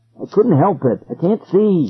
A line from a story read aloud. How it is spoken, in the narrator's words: he cried